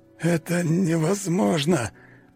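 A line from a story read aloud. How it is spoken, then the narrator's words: Strained hoarse rasp. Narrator (Russian): прохрипел он, все еще пытаясь сопротивляться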